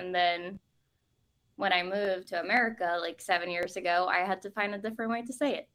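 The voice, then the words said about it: Norwegian accent. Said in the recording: “it's just easier for me to say Natas with my accent ... What is the accent that you have? ... So my language is Norwegian. Like, I'm from Norway”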